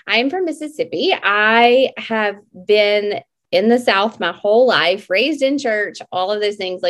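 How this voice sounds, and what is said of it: Slightly off, unwell-sounding voice. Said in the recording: “my voice is a little funky tonight. We have a we have a uh, we've had some sickness in our home”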